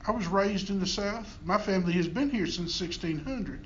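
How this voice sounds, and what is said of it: Southern US accent. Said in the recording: “I speak with a Southern accent”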